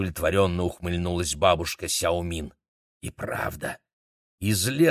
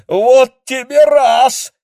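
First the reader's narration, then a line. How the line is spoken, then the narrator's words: Shocked yell. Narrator (Russian): потрясенно завопил Демин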